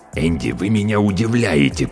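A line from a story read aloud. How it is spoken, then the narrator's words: Hiss. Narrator (Russian): прошипел он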